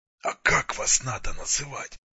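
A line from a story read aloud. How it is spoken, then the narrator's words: Grumble. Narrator (Russian): буркнул Артем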